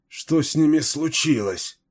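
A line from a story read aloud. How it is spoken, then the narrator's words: Moaning. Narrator (Russian): простонал кто-то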